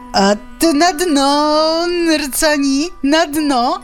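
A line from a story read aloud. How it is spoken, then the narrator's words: Mocking shout. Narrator (Belarusian): крычыць лісіца пасмешліва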